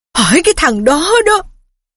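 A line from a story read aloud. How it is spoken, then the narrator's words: Tearful shouting. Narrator (Vietnamese): Thầy Phiết quay bộ mặt tèm lem nước mắt về phía Harry mà gào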